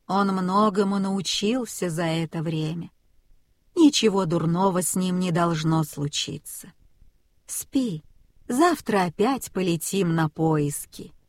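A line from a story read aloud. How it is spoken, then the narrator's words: Old goose speaking. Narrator (Russian): Старая гусыня сказала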